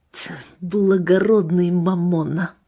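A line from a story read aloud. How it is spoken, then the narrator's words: Muttering. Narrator (Russian): пробормотал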